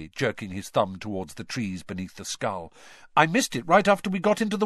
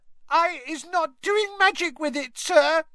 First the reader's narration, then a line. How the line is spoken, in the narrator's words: squealed Winky, tears streaming down the sides of her squashed and bulbous nose